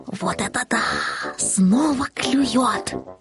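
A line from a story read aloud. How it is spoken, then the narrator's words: Kitten whispering. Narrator (Russian): Каждый раз, когда что-то попадалось на крючок, котенок шептал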